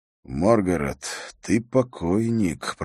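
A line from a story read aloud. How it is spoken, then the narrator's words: Mutter. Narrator (Russian): пробормотал он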